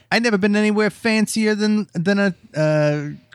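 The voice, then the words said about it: Put-on Italian accent. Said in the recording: “did a good Italian accent like we're doing”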